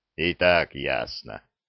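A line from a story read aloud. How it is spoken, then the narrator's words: Booming hum. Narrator (Russian): прогудел Зырк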